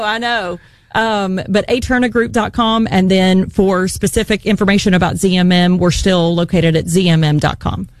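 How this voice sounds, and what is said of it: West Virginia accent. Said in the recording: “my accent, my West Virginia accent”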